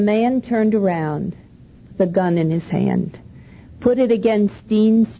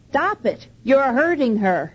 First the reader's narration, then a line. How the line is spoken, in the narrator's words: he shouted